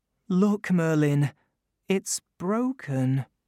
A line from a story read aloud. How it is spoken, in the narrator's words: he said, a little sadly